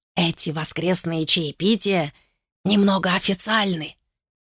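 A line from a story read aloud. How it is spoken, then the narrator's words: Nervous whisper. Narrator (Russian): нервно прошептал он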